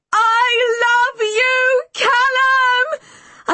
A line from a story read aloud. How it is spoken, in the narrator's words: I scream frantically